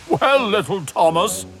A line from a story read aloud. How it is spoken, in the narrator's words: chuckled Gordon